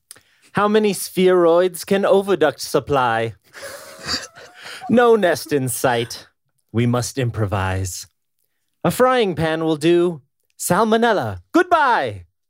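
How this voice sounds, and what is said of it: Put-on spell-casting accent, poem reading. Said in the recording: “I wasn't comfortable with the accent. ... I was trying to read it as if I was casting a spell, sort of.”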